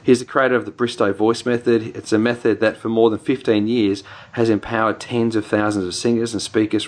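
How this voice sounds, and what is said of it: New Zealand accent. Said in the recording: “It's been my Kiwi accent coming out there.”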